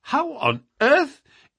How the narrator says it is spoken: I exclaimed

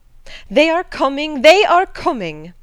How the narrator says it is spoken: cried Hannah

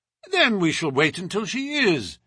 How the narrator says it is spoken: said Holmes cheerfully

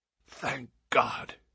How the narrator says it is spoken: he said hoarsely

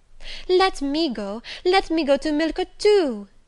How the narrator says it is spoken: cried

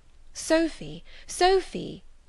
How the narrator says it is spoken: I again cried

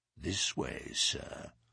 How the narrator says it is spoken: said he in a low voice

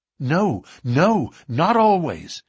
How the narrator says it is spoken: cried Morris with vehemence

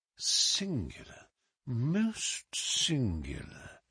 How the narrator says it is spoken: he murmured

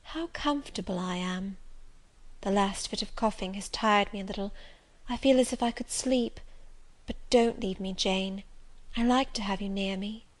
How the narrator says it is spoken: she said, in the sweetest tone

